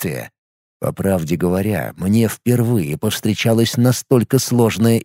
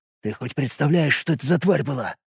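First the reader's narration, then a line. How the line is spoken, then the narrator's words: Whispered question. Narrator (Russian): шепотом спрашивал Елос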